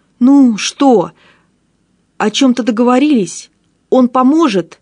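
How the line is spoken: Overlapping shouting. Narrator (Russian): Наперебой кричали мы с Гаптеном

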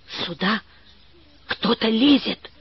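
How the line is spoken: Whisper. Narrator (Russian): шепнула Валя

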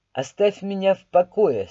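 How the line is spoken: Cold. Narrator (Russian): сказал я холодно

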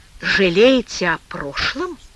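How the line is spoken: Quiet, dry-voiced question. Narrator (Russian): тихо спросил Тимофей пересохшим голосом

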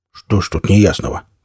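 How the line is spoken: Grumbling mutter. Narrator (Russian): пробурчал Никита

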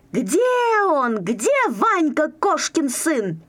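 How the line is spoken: Shouting. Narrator (Russian): кричал

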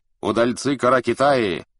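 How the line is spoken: Shouted. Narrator (Russian): крикнул им Джалаль-ад-Дин

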